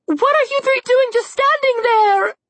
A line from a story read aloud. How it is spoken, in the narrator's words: Red screamed